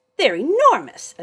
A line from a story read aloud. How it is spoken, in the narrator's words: Adolphus yelped